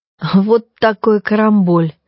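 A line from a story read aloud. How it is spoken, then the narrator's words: Laughing and sobbing. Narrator (Russian): рассмеялся он и тут же всхлипнул и снова рассмеялся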